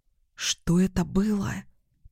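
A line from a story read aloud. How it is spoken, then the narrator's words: Whisper. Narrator (Russian): прошептала я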